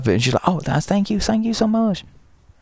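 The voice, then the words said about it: Imitated thick Chinese accent. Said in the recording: “What a thick accent. ... she has the most stereotypical Chinese accent. It's very thick and very funny.”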